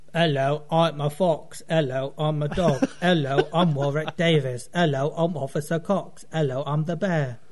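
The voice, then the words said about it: Series of character voice impressions. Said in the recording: “his awesome impression talents”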